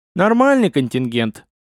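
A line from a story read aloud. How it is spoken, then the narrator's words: Grumbled. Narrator (Russian): пробурчал Васильев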